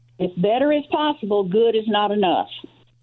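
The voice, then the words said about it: Tennessee accent. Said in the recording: “she was from Tennessee? I love this accent.”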